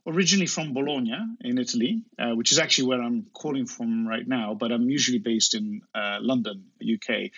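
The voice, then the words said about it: English accent. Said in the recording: “you have a lovely English accent and do not sound like the typical Italian man”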